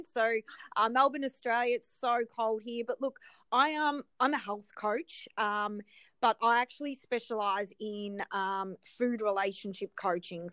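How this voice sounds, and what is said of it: Australian accent. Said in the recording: “I'm based in Australia, if you can tell with the accent.”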